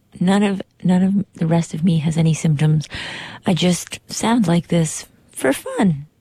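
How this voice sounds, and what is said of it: Hoarse, sick-sounding voice. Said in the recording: “my voice sounds very strange. It sounds maybe like I just woke up or that I am extremely sick. But just my voice is sick ... I am a little hoarse”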